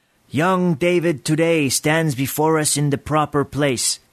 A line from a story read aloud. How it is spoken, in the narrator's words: he called out